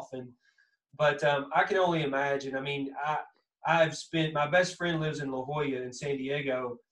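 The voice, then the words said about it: Thick Southern Kentucky accent. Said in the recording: “accent. It's you know that thick southern that kind of that Kentucky accent,”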